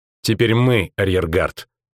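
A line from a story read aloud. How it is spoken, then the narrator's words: Dry. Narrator (Russian): сухо сказала наемница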